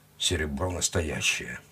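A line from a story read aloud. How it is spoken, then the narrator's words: Grumbled. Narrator (Russian): буркнул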